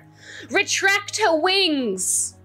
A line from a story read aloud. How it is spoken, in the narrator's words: Addy shouts